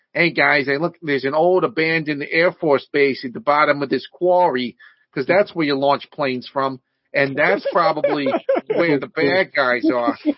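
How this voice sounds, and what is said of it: Spot-on imitation of a movie character. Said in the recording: “Your impression of that guy is really good. Like, yeah. It's spot on.”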